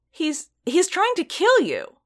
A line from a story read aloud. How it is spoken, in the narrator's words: Strill exclaimed